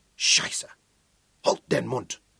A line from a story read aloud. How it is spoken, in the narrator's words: snapped the other